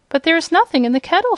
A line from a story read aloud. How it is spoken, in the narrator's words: she cried